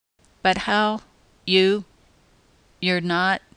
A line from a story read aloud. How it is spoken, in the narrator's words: He stammered helplessly